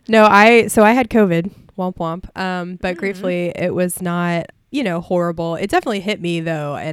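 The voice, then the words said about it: Scratchy, tired, slightly sniffly voice. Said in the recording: “you can probably still hear it in my voice. I'm a little scratchy ... just tired still ... that's definitely making me a little sniffly as well”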